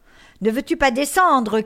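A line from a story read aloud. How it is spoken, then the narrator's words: Shout. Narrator (French): criait Barbe Bleue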